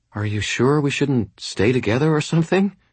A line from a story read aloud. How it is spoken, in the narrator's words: She asked anxiously